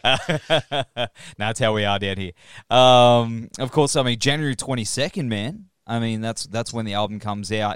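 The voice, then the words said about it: Thick Australian accent. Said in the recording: “down here in Australia ... we've got that thick accent that just makes everything sound terrible”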